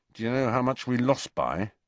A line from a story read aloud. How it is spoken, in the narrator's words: he asked Ron through clenched teeth